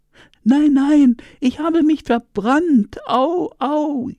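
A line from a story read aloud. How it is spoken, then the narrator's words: Wailing in pain. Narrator (German): jammerte die Hyäne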